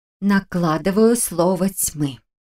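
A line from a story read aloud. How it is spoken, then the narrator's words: Trained declaiming voice. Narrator (Russian): поставленным голосом объявила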